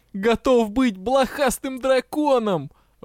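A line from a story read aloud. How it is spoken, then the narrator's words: Ecstatic howl. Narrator (Russian): взвыл счастливчик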